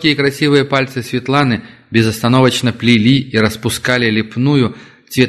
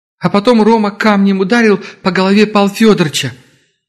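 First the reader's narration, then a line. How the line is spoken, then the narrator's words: Holding back sobs. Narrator (Russian): Девушка сдержала рыдание и продолжала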